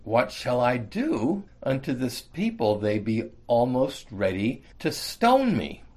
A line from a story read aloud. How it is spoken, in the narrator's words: Moses cried unto the Lord, saying